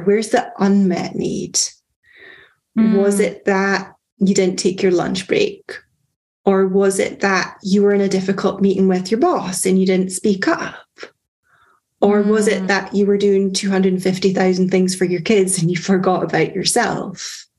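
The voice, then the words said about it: Scottish accent. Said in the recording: “your delicious Scottish accent”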